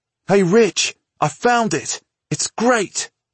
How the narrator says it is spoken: he said excitedly

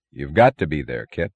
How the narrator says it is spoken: said the man ominously, in that stubborn monotone of the unthinking

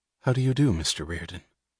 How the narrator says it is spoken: he heard the quietly natural

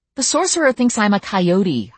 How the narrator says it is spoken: I exclaimed impatiently

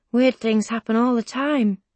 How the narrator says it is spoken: he says quietly

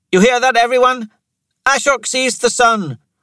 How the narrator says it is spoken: Thera shouted

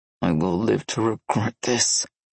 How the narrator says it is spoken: Nikolai muttered

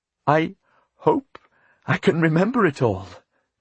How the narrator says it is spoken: Elizabeth said nervously

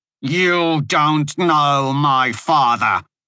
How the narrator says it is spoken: Muriel said through clenched teeth

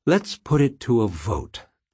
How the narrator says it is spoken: she said gravely

